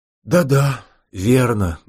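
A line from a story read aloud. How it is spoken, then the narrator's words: Sad. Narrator (Russian): грустно покивал князь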